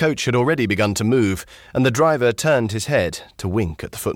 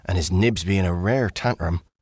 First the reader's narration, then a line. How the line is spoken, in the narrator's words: whispered